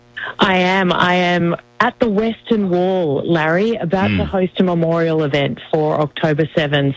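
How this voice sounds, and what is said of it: Distinctive Australian accent. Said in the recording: “I can't quite pick up the accent. ... it's very distinctive ... Australia”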